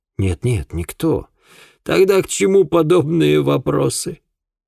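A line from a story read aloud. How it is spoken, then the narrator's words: Angry outburst, then sobbing. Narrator (Russian): Вспыхнул Дорстоун и тут же, разрыдавшись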